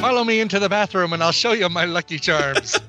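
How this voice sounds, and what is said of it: Put-on Irish accent. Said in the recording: “accent special ... So now we go all the way over to Ireland. ... Nobody needs to talk like they're from Ireland.”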